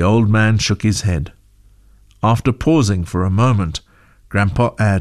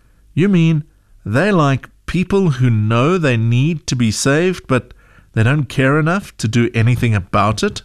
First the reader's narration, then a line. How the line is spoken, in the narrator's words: she asked